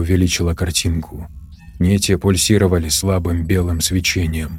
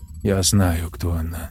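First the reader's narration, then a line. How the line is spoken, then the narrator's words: Calm. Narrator (Russian): спокойно сказала Тори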